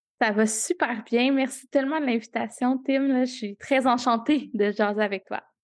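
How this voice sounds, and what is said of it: Québécois French accent. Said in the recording (French): “est québécoise, euh, ça se sent à l'accent”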